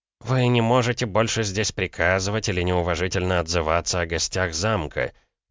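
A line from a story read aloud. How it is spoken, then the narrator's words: Through gritted teeth. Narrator (Russian): процедил Савинов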